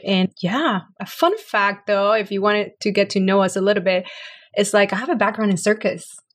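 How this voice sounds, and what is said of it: Puerto Rican Hispanic accent. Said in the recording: “you can hear by my accent that I'm Hispanic. So I'm from Puerto Rico”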